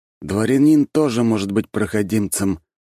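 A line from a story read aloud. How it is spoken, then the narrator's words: Grumbling. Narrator (Russian): пробурчал Карачаров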